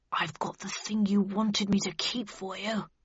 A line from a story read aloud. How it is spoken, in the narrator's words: whispered Bradshaw under his breath